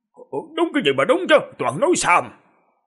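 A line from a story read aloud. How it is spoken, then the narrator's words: Angry shout. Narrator (Vietnamese): Đột nhiên tỉnh lại, vừa giận dữ quát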